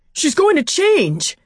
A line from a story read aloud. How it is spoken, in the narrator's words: yelling